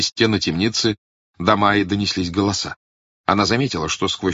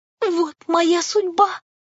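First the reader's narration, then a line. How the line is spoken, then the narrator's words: Moaning wretched prisoner. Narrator (Russian): простонала несчастная узница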